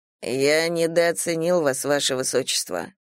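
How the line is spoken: Calm. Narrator (Russian): Ли спокойно сказал

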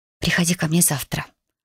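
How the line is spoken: Whispered. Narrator (Russian): шепнула я Хантеру

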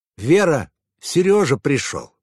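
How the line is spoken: Shouted into the apartment. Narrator (Russian): крикнул Николай Семенович в глубину квартиры

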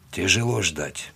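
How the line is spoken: Quiet. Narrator (Russian): тихо сказал

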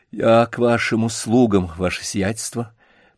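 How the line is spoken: Muffled, pleading. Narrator (Russian): произнес он глухо, глядя на Василия Львовича умоляющими глазами

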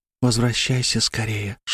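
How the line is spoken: Barely audible whisper. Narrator (Russian): шепнула едва слышно в самое ухо Аня

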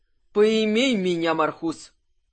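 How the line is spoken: Pleased loud laughter. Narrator (Russian): Кирсан довольно захохотал

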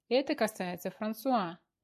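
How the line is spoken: Barked sharply. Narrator (Russian): рявкнула Диана

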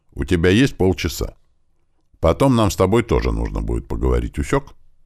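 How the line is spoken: Stern command, mother. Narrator (Russian): строго глянув на меня, скомандовала

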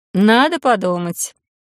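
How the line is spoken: Cautious snort. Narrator (Russian): хмыкнула я осторожно

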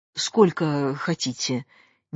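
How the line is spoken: Uncertain question. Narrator (Russian): неуверенно спрашивал фраер

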